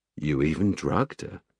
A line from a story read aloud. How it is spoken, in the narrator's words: Sparks added quietly